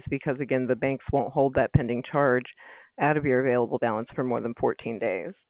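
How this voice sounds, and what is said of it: Hoarse, fading voice. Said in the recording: “I'm losing my voice.”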